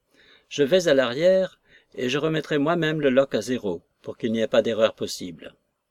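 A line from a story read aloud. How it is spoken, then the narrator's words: With a brief sigh. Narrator (French): le capitaine me dit avec une sorte de bref soupir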